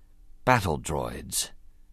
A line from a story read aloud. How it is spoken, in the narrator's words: Qui-Gon said softly